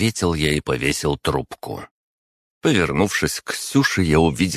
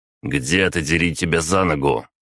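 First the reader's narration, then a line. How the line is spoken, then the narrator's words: Grumbling. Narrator (Russian): проворчал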